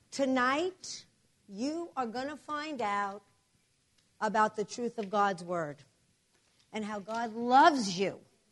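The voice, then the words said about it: New Jersey accent. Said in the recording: “I'm ... from New Jersey, but our church is in New York City ... I have an accent ... So bear with my accent.”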